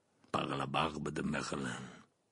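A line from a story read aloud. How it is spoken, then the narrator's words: Muttering. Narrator (French): marmonna Maugrey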